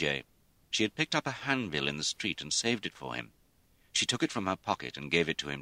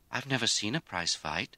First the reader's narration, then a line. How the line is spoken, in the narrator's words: Lizzie said wistfully